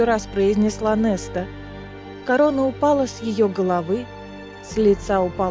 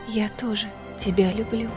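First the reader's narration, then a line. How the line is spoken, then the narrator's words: Whispered. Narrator (Russian): прошептала сестре Фейра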